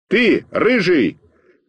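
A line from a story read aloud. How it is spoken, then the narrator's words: Shout. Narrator (Russian): крикнул я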